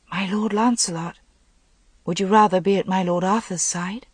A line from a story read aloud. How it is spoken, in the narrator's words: She said gently